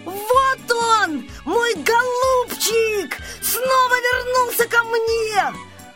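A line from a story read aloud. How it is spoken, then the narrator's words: Shouting. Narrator (Russian): Саша закричал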